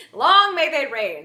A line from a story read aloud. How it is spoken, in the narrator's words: the septon shouted